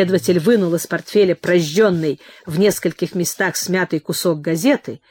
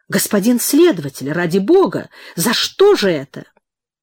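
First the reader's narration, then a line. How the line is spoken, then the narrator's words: Exclamation. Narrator (Russian): воскликнул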